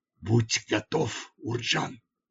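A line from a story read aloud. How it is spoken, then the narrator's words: Whisper. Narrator (Russian): прошептал я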